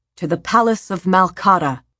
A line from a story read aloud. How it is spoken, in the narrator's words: the high priest shouted